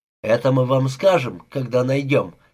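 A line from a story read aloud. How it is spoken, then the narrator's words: Angry interjection. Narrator (Russian): сердито вмешался сержант Калсон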